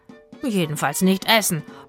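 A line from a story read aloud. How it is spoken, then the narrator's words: Grumbling. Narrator (German): brummte Itzig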